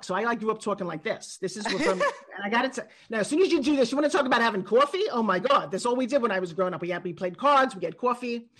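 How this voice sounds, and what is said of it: Put-on New York accent. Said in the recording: “my original accent comes from New York ... that particular accent wasn't very nice, very ladylike”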